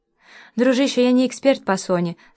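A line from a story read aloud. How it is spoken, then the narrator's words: Almost cheerful. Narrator (Russian): сказал Миша почти весело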